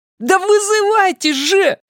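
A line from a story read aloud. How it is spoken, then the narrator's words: Shouting. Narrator (Russian): закричал Дориан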